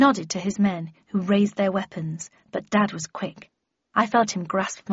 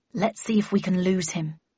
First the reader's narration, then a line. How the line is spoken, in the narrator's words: muttered my father